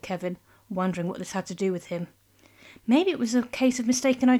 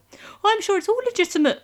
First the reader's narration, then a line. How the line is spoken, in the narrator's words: said Kevin, a touch squeakily